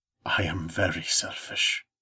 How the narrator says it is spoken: he said, his voice low and dangerous

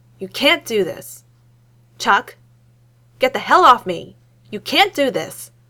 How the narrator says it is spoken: he shouts at Stacker

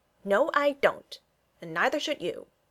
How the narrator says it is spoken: said Freddy firmly

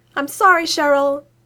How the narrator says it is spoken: he yells

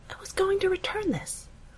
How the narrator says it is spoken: whispers, though still loud enough for the cameras to pick up

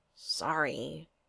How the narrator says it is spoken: Dawn mumbled

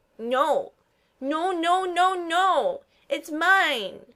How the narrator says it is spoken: shrieks

